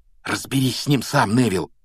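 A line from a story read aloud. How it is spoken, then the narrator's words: Whispered. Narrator (Russian): шепнул он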